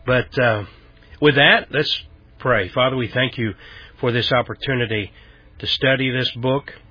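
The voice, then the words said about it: Slightly raspy voice. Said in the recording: “clear my throat, coughing, my voice is a little raspy. I'm dealing with a bronchitis flare-up”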